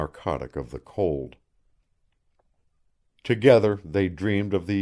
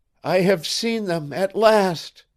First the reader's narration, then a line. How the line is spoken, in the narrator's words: he cried aloud